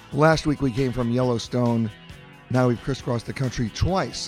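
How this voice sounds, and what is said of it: Slightly hoarse voice. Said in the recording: “Excuse my little hoarse voice, but if you had my travel schedule, you wouldn't even be able to speak.”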